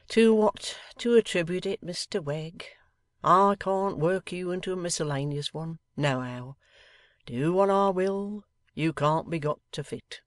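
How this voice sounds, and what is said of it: Weak, querulous complaining voice. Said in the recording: “a haggard, melancholy man, speaking in a weak voice of querulous complaint.”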